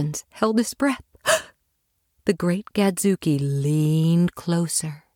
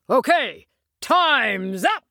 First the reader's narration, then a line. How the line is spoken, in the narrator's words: the great Gadzooky shouted